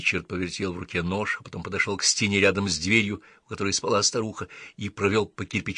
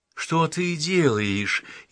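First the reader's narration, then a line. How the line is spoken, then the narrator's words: Frightened old woman asking. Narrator (Russian): испуганно спросила старуха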